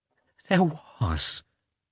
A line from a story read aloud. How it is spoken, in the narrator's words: she said in a trembling voice